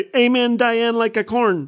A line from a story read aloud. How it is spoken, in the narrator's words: she said very loudly